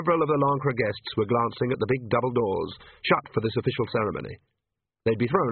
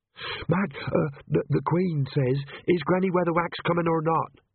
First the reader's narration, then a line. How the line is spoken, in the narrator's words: she panted